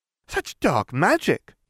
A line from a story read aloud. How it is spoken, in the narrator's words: Bellatrix giggled